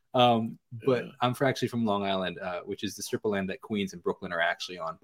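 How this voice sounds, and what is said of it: Slight New York accent. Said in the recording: “I can hear a little bit of the accent in there.”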